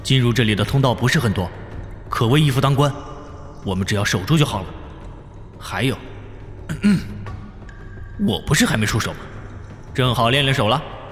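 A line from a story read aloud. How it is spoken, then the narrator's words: Deep steady voice. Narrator (Chinese): 冯耀沉声说道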